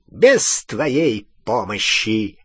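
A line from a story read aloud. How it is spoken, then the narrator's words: High clear voice. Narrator (Russian): отозвался Волан-де-Морт высоким, ясным голосом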